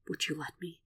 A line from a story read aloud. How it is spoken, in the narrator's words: Will asks, barely a whisper